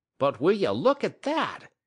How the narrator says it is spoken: he exclaimed the next moment

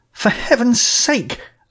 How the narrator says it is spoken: I cried

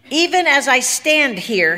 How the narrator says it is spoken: he bellowed

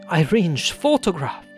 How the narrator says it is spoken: he cried

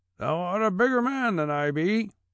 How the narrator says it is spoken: shouted the carrier, being carried beyond himself by the state of things

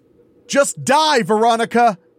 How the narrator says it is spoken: the killer yelled behind me

